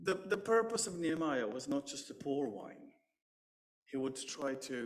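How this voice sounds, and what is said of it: Usual voice. Nothing is said of it.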